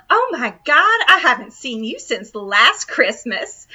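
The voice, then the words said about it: Put-on Southern accent. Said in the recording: “You got a little bit of the Southern accent ... There's your Southern accent.”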